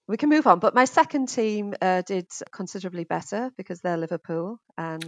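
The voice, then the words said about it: Northeast English Middlesbrough accent. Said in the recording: “as you can probably tell from my accents, I'm originally from the northeast of England, Middlesbrough.”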